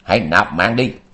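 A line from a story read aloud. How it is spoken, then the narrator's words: Shout. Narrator (Vietnamese): Dạng Kiếp Quỷ Nữ quát dạng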